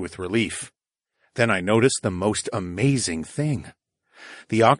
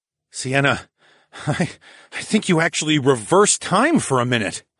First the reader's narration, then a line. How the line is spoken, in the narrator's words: I exclaimed